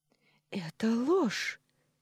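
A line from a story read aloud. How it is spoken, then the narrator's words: Furious exclamation. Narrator (Russian): яростно воскликнула Валерия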